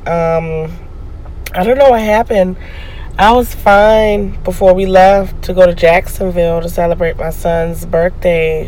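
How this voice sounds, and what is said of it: Hoarse, scratchy voice. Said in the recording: “my throat was a little scratchy ... my voice sounds a little hoarse or different”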